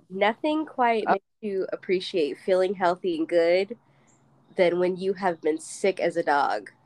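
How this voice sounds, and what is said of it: Voice still sounds sick. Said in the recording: “you can probably still hear it in my voice a little bit. And I may cough.”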